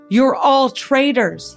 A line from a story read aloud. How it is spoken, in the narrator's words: he cried